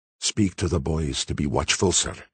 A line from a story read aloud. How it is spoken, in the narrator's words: he said in an undertone to Duncan